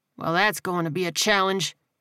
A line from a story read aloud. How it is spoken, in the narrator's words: Hammond muttered